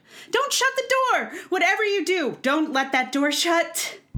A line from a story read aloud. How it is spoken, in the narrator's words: someone shouted